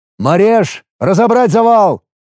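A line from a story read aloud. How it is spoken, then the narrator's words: Loud command. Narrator (Russian): громко скомандовал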